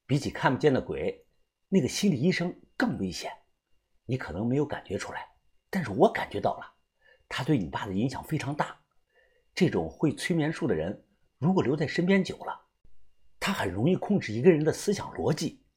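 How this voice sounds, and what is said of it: Quiet, hushed speaking voice. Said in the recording (Chinese): “小声的说道”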